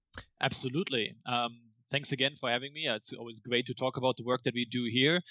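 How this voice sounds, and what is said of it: German accent. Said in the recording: “Why does this guy have a weird German accent?”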